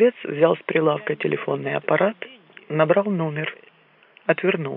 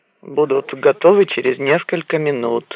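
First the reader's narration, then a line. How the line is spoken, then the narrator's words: Mutter. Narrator (Russian): пробурчал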